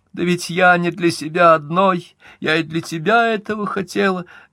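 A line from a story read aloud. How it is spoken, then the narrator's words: Sobbing. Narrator (Russian): говорила она, всхлипывая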